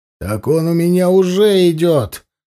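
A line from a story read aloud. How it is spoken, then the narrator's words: Barked. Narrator (Russian): рявкнул коллега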